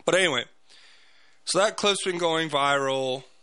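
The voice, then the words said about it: Hoarse, strained, nearly lost voice. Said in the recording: “my voice just, it's gone”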